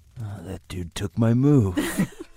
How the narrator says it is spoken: says under his breath

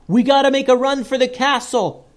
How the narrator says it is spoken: yelled Joseph

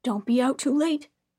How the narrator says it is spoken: said the other

